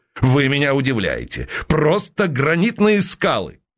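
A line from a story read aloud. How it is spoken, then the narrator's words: Laughing. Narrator (Russian): засмеялся Уваров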